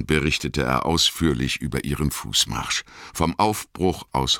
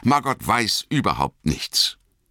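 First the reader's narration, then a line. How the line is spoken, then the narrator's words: Hasty. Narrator (German): sagte Frodo hastig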